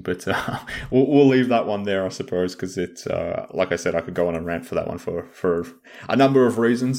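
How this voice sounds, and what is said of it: Speaks with a noticeable accent. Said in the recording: “You can hear the bias in the accent.”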